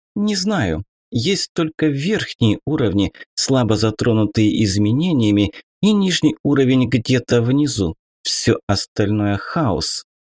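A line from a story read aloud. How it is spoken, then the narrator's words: Plain, after a pause. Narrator (Russian): ответила она наконец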